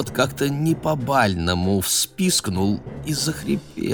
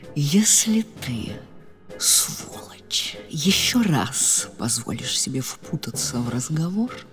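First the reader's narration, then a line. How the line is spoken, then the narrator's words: Smiling menacing whisper. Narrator (Russian): Маргарита, не переставая улыбаться, зашептала ему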